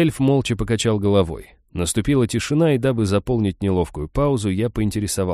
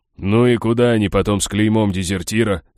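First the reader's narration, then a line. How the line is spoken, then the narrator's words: Scoffing snort. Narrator (Russian): хмыкнул берсеркер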